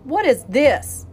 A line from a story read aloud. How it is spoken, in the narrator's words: he growled